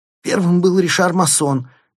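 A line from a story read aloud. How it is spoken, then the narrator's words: Squeak. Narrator (Russian): пискнул финансист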